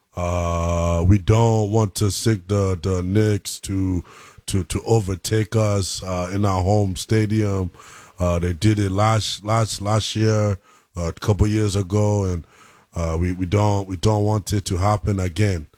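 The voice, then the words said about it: Imitates another person's voice. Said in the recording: “I have a hell of a Joel Embiid accent ... you've been practicing on that?”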